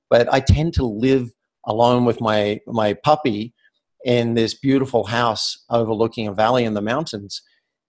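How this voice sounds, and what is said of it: Australian accent. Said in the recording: “Sounds Australian.”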